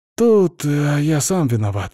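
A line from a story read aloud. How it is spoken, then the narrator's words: Sighing. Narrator (Russian): вздохнул Хьюго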